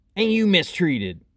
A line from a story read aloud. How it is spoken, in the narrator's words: Moki whined piteously